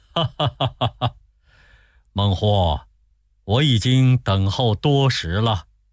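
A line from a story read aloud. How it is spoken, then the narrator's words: Hearty laughter. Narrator (Chinese): 孔明哈哈大笑说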